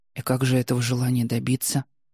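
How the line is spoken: Soft smiling. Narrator (Russian): Настя улыбнулась мягко

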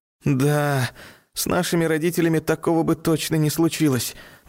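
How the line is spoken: Sigh. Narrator (Russian): вздохнул Саня

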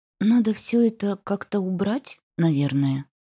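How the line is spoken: Quiet. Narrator (Russian): тихо повторила она

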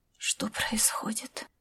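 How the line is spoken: Whispered. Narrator (Russian): прошептала она

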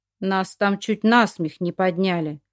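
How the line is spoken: Grumbling. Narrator (Russian): заворчал Алексей Владимирович

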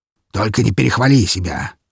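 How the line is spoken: Prince snorting. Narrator (Russian): фыркнул князь

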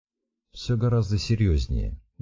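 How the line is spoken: Sad reply. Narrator (Russian): грустно отозвался Иван

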